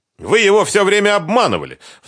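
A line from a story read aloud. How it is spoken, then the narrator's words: Shouted. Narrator (Russian): в свою очередь крикнула Лиана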